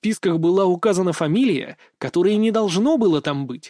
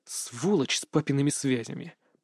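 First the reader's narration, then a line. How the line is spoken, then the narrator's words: Mutter. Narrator (Russian): пробормотал я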